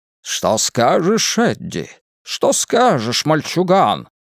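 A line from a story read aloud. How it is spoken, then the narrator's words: Booming southern gentleman voice. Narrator (Russian): спросил Ричи раскатистым голосом джентльмена с юга, хотя он более всего напоминал голос Фокхорна Лекхорна в мультфильмах Warner Brothers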